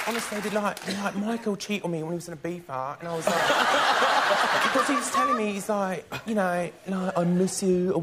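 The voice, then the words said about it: American imitating Essex English accent. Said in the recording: “It's the Jersey Shore from here. It's like this town somewhere, Essex, I guess ... I could pick up their accent and do their accent a little bit ... this is really embarrassing to do in front of a whole room full of Brits here, but I'll try it anyways”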